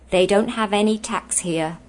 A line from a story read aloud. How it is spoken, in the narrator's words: he said